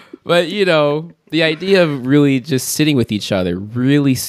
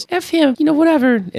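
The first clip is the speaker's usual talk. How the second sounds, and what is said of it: Put-on girl voice. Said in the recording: “that's my girl voice”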